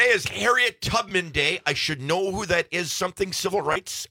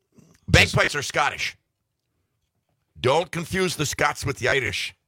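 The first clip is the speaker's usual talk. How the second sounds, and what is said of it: Put-on Irish accent. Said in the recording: “That was a good little Irish accent... That wasn't too bad... That wasn't bad. For two or three words.”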